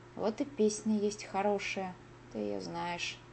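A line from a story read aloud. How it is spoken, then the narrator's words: Plain. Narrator (Russian): сказал он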